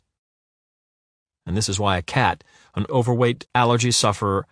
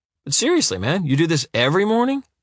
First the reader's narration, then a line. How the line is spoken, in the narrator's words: Jimmy asks cheerfully